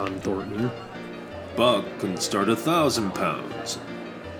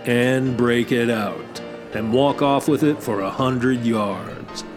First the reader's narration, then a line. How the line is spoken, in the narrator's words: John Thornton said coolly